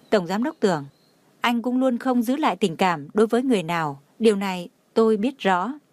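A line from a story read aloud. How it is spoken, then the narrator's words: Smiling. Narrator (Vietnamese): Trang Hạo Nhiên mỉm cười nói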